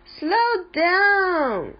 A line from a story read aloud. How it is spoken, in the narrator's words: shouted Viv